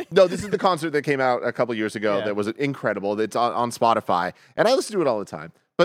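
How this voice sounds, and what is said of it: Lower, worn-out voice. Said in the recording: “my voice is a little like lower and out, compared to normal, it's because I was singing”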